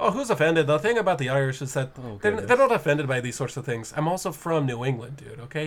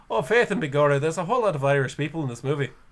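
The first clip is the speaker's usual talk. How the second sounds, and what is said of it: Exaggerated stereotypical Irish accent. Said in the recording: “that took way too long to get an offensive accent in”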